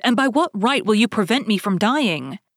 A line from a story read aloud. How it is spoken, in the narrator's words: exclaimed